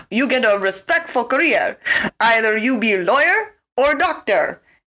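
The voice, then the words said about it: Bad imitation of Romanian mom accent. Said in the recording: “your mom was like, I want to do the accent, but I'm not going to do it justice ... this is my accent. It's so bad.”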